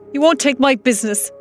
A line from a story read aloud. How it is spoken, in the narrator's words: I shouted back in the door at them